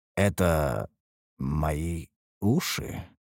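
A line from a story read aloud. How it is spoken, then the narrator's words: Mumble. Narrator (Russian): пробормотал я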